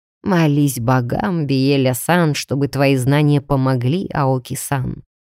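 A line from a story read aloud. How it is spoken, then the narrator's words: Quiet. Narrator (Russian): негромко сказал Масаши-сан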